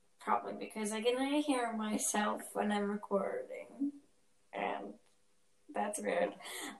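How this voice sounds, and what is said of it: Very slow speech. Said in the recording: “I'm talking very slow right now”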